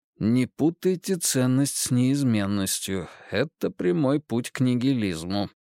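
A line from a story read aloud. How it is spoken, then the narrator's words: Purred softly, shaking off sadness. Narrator (Russian): промурлыкал Эрнест себе под нос, пытаясь стряхнуть с себя грусть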